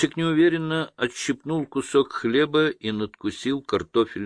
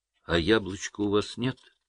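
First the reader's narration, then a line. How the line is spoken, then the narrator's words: Timid question. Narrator (Russian): спросил он робко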